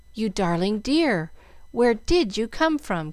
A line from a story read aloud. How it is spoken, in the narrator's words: cried Jill